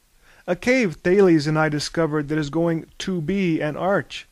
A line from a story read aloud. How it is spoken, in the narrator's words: said Prometheus